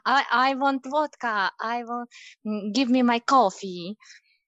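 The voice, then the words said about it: Exaggerated comic Russian accent. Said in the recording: “he mocks my accent and I try to exaggerate it for a more comic effect ... Russian”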